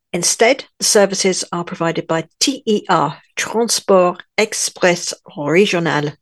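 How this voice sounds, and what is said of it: Put-on French accent. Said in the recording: “Do you like my French accent? Oh, I'm getting better at this, aren't I?”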